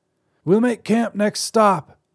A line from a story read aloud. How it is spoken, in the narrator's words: she called out